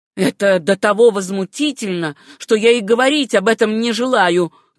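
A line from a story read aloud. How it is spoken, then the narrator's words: Shouting, regaining composure. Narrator (Russian): крикнул он, точно приходя в себя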